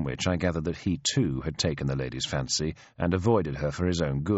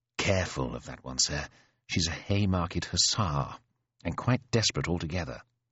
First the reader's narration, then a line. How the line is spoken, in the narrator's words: Prideaux muttered beside me